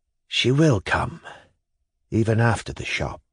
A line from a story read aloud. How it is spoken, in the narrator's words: he whispered, thinking a moment, and an expression of scornful disdain came into his face